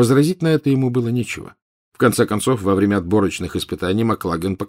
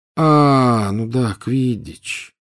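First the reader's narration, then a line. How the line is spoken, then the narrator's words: Drawling. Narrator (Russian): протянул он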